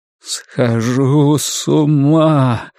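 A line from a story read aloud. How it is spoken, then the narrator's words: Moaned. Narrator (Russian): вновь простонал Ларри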